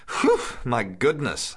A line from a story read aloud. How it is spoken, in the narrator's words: the black-haired young fellow whistled and then laughed